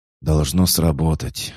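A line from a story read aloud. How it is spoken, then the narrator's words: Sighing. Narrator (Russian): вздохнул Хаджар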